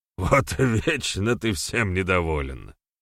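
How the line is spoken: Chuckling old sorcerer. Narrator (Russian): хохотнул седой ведун

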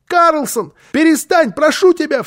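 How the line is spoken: Frightened child's shout. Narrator (Russian): в страхе крикнул малыш, потому что он видел, в каком бешенстве была Фрёкенбок

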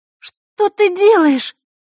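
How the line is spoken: Astonished girl exclaiming. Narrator (Russian): изумленно воскликнула девочка

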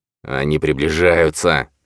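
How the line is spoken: Hiss. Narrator (Russian): прошипел Ковальский

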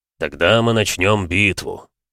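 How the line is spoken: Gloomy. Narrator (Russian): мрачно подхватил Шторм

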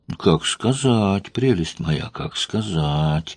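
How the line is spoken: Unhurried drawl. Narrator (Russian): Протянул он, не спеша

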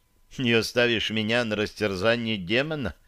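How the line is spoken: Displeased grumble. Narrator (Russian): недовольно пробурчала Таша

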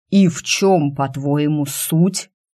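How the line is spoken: Animal growl. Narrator (Russian): по-звериному прорычал я

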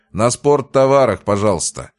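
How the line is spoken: Loud request. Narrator (Russian): громко попросил я

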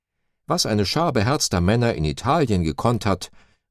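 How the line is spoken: Exclaimed. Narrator (German): rief Hermann Esser Anfang November 1922 im Löwenbräukeller aus

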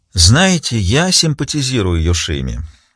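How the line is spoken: Sighing confession. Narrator (Russian): вздохнув, призналась Риццоли

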